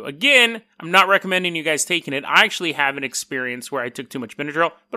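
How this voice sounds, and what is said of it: Congested, stuffy-nosed voice. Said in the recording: “you'll have to deal with my stuffy nose. I know my voice is a little weirder when I'm stuffed up”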